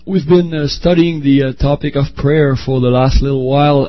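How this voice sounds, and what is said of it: French accent, hoarse voice with cold. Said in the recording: “I have a cold ... a sore throat and a French accent”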